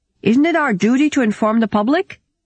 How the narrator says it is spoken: shouted out a Dutch delegate

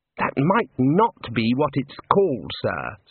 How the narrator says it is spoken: said Ponder

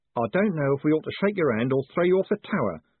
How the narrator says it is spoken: said Sane Alec sullenly

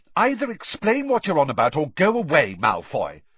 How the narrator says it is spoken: said Hermione testily

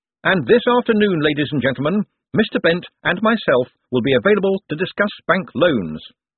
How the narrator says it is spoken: Moist cupped his hand and shouted

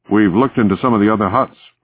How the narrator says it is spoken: Frigate said

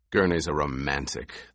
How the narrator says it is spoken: the Duke growled

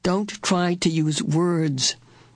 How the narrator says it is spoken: Aunt Beast said soothingly

